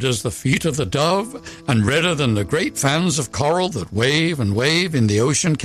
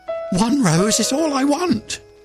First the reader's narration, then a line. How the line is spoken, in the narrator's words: cried the nightingale